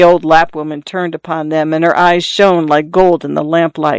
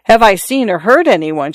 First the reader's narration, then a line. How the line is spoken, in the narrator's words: she cried